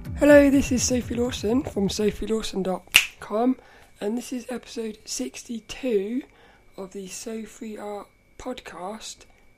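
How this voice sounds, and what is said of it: Rough, congested voice. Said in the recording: “my voice is a bit more rough than normal. It's because I've got a real, like, bunged up nose”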